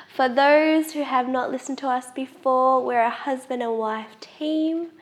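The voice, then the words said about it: Nasal, congested voice. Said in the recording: “I sound a bit nasally... Sound like a bit of... like the nanny... You're sick as a dog”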